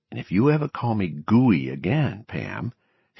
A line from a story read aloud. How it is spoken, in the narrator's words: he had whispered